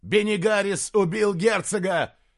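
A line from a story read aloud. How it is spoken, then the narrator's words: Shouted. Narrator (Russian): крикнул Диарнот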